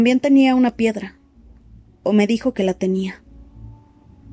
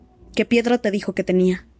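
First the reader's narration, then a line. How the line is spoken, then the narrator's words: Plain. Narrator (Spanish): le preguntó Jax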